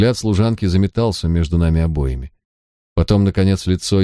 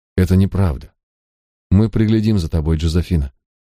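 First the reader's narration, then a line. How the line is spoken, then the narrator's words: Gentle. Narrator (Russian): мягко добавил Гай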